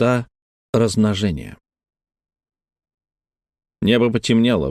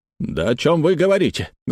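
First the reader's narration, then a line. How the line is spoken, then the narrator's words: Loud exclamation. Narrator (Russian): громко воскликнул Ву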